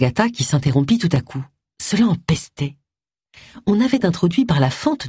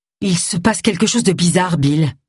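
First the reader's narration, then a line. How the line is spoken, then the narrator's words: Exclaiming. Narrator (French): s'écria-t-elle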